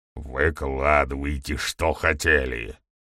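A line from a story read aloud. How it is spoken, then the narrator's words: Displeased sniffling growl. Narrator (Russian): прорычал, недовольно шмыгая носом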